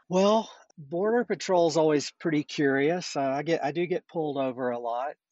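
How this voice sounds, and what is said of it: Slight Southern American accent. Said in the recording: “You've got a little bit of a southern accent I can hear there.”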